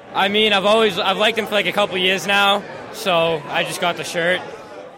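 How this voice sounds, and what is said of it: Boston accent. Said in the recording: “Callahan's accent,⟧ we're nowhere near California. We're at Boston's TD Garden”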